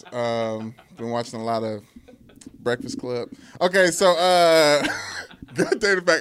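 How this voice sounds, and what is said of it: Radio interview voice. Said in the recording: “in a radio interview voice.”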